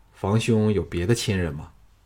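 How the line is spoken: Quiet, flat after pause. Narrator (Chinese): 房生……默然片上，才淡淡的说

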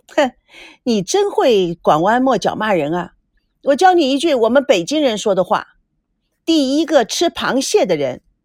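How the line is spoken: Laughing. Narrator (Chinese): 孙娜笑了起来

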